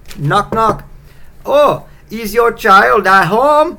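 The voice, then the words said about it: Poor attempt at Icelandic accent. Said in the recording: “I don't know if that's an Iceland accent. That was terrible.”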